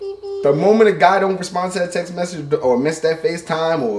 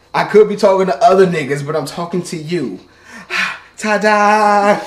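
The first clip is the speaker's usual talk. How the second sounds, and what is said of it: Talking too loudly. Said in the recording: “I'm talking too loud, my bad. I lower my voice”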